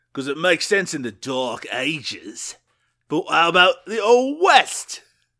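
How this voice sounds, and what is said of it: Put-on British accent. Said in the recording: “does he use his British accent? ... you'll just keep doing the accent”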